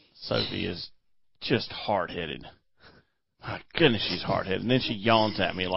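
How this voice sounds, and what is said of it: Usual voice. Nothing is said of it.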